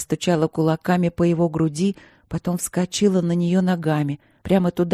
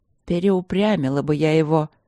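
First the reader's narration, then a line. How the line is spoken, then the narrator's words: Breathless queen grumbling. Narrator (Russian): ворчала царица и набирала дыхание для очередной серии прыжков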